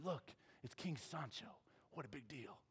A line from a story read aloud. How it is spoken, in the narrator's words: people whispered